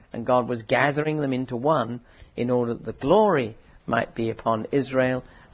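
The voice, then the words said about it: Thin, tiring voice. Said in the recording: “my voice is getting a bit thin”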